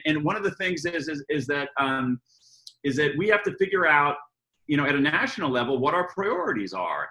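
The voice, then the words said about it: American accent, very energetic delivery. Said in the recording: “obviously I'm an American, um, as, you, as you all can tell by my, my accent and my, you know, uh, over energy here”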